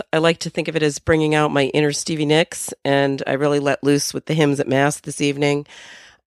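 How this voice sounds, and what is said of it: Hoarse voice. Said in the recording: “still recovering from the cold ... my voice is sounding a little hoarse. ... This is all I have for a voice.”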